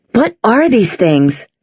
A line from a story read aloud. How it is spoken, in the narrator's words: Clary panted